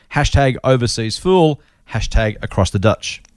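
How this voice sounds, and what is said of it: Put-on New Zealand accent. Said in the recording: “Do you like the way I did the Dutch thing? He said ditch, but I'm doing the Kiwi accent. So Dutch.”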